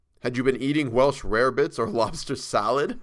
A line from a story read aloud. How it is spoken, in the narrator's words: I began laughing